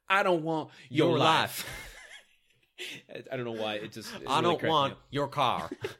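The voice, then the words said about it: Imitates a Texan-accented line. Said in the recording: “Her Texan accent really comes out there ... the way she said it really reminded me of James Vanderbeek in Varsity Blues”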